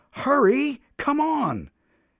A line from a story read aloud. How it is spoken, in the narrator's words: he shouted